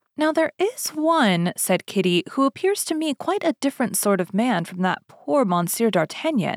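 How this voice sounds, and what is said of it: Usual voice. Nothing is said of it.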